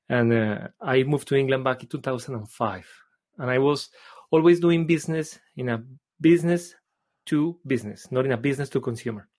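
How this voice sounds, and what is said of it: Colombian accent in English. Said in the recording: “I am originally from Colombia. You may have noticed because of my accent.”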